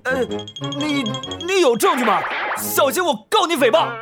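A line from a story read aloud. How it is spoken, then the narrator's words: Forced, defensive shout. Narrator (Chinese): 他硬着头皮喊了起来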